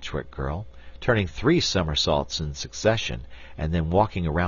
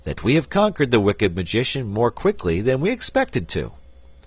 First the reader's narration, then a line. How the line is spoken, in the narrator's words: said the wizard in a cheerful voice